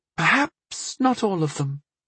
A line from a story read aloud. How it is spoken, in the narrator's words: she said quietly